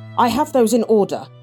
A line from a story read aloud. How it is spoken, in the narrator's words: Gretchen said sharply